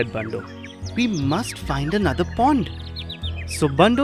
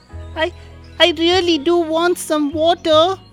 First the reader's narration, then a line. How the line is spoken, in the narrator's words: cried the baby deer